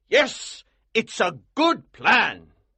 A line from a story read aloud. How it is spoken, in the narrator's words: he cried